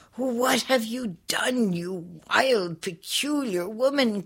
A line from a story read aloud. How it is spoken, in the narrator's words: cried Ali Baba's wife